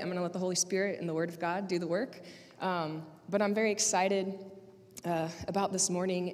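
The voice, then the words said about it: Slightly raspy, hoarse voice. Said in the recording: “lost my voice on Wednesday, and I thought for sure I'd be back by today, but it's a little raspy”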